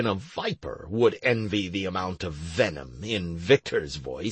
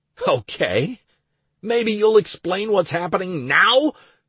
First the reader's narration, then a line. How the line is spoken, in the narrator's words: I yelled again